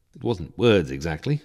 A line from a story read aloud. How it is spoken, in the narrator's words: I mumbled